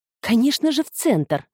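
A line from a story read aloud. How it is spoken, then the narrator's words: Exclamation. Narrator (Russian): воскликнула Петрина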